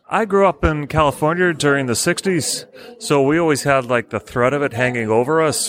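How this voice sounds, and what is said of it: Non-local accent, not from Nantwich. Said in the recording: “I can tell from your accent that you're not from Nantwich.”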